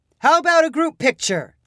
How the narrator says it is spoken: shouted

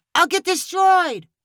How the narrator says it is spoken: Julio shouted back

